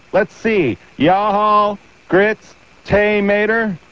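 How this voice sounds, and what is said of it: Put-on Southern US accent. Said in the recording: “practicing my southern accent”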